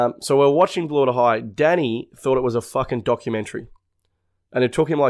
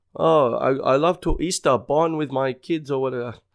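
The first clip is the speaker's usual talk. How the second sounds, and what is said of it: Poor imitation of German accent. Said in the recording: “that accent... I don't even know how to do her voice, but it's fucking shit ass”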